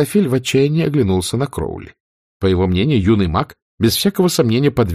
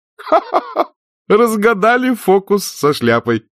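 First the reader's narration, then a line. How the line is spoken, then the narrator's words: Good-natured laughter. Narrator (Russian): добродушно рассмеялся он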